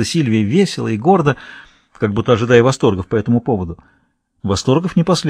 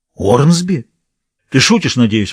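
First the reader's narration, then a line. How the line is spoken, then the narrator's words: Exclaimed. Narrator (Russian): воскликнул Реджинальд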